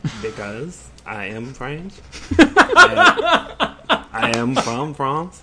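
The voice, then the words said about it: Put-on French accent. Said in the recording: “Why do you prefer a French accent?”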